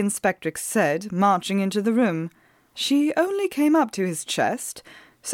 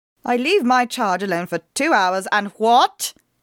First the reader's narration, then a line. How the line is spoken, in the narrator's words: she said in a piercing voice